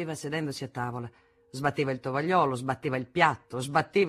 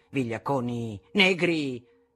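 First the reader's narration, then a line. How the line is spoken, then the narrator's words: Father thundering. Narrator (Italian): tuonava mio padre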